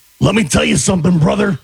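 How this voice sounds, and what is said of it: Hulk Hogan impression. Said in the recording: “your imitation of choice ... Famous person, imitation, do your best. ... Hulk Hogan.”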